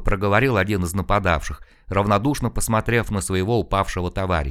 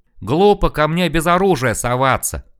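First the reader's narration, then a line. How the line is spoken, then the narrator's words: Yelling. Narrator (Russian): заорал Серега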